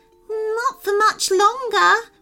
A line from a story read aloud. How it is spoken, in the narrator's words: whimpered the fairy